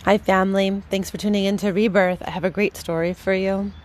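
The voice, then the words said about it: Slightly scratchy early-morning voice. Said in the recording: “if my voice is a little scraggly, it's because it is bright and early on a Thursday morning”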